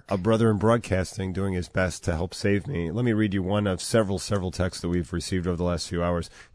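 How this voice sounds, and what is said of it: Hoarse, muffled voice from a cold. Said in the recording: “On your last vocal cords? ... I'm on my last vocal cords ... my voice isn't ... a cold and a sore throat ... Does he have a mouthful of marshmallows?”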